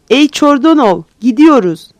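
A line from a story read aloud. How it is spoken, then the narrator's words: Commander shouting. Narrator (Turkish): diye bağırdı kumandan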